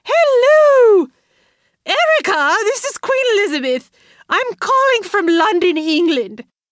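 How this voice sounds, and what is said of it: Awful put-on English accent, yelling. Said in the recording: “in an awful English accent that sounds like the part of Mrs. Doubtfire where she has a plate of whipped cream on her face and shoots up behind the refrigerator and yells ... her voice getting higher, the English accent is getting more offensive”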